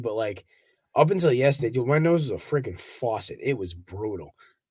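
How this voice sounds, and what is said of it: Nasal, congested voice. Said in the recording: “I'm still feeling a little under the weather... my voice is a little nasally”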